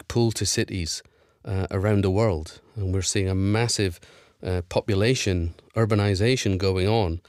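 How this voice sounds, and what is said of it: Scottish accent. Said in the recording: “Do we detect a Scottish accent there ... the Scottish accent seems to hang on”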